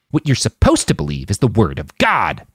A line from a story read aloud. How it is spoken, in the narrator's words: the man snarled